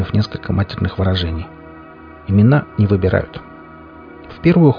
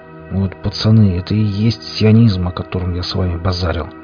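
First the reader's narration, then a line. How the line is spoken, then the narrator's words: Hissed through teeth. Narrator (Russian): Один из пострадавших прошипел тогда сквозь зубы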